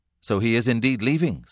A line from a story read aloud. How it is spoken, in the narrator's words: said Momus to the landlady, almost anxiously